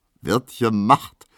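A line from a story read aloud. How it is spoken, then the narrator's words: Laughing soldier. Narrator (German): sagt lachend der Soldat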